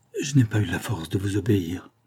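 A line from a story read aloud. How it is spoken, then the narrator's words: Murmur. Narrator (French): murmura-t-il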